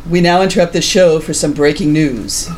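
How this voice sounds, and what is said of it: Radio announcer voice. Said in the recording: “do my radio voice”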